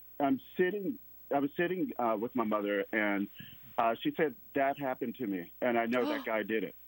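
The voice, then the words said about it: Mississippi accent. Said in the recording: “I'm from Mississippi, so the viewers will probably hear the accent. ... a little bit, yeah.”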